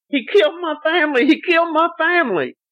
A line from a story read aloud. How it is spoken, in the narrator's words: She kept screaming hysterically